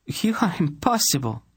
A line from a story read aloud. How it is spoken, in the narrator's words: Tenedra said helplessly, laughing in spite of herself